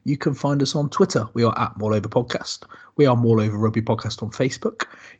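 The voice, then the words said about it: West Country English accent. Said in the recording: “all with a West Country accent”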